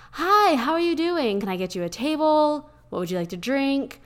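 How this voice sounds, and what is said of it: Airy, high-pitched customer service voice. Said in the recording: “our voice gets kind of airy. It gets a bit more, I guess, high pitch ... your customer service voice ... my customer voice was so different than my actual voice”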